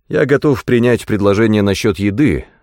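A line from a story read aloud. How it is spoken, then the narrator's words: Loud declaration. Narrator (Russian): громко заявил Люк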